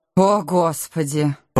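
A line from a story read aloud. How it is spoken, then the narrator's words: Young woman's moan. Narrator (Russian): простонала девушка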